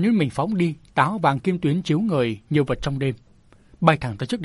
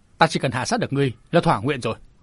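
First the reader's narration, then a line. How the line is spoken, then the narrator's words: Cold sneer. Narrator (Vietnamese): Lữ Gia Hành cười nhạt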